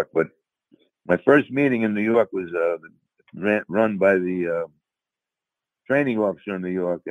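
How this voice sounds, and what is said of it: New York accent. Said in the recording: “as you can tell from my accent, I'm from New York”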